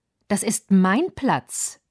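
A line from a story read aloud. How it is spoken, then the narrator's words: Plain. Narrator (German): sagte Mirl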